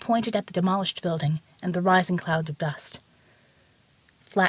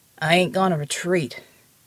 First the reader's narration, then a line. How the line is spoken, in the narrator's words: he said wearily